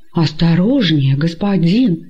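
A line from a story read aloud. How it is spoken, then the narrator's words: Frightened exclamation. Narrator (Russian): испуганно воскликнул раб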